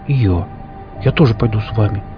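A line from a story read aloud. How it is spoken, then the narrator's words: Quiet. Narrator (Russian): негромко сказал Ересь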